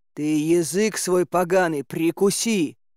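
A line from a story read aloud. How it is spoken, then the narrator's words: Angry growl. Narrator (Russian): зарычал Добрыня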